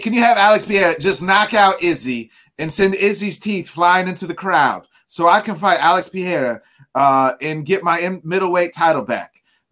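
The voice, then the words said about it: Weak Australian accent, Robert Whittaker. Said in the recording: “my Australian accent's not very good”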